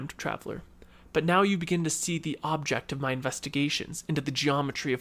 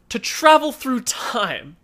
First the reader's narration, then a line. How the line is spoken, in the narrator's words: exclaimed the very young man